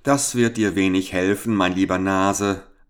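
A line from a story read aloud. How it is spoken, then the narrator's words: Laughing reply. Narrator (German): antwortete der Fremde mit Lachen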